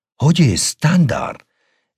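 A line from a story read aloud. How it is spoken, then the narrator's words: Joyful exclamation. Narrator (Spanish): exclamó con gozo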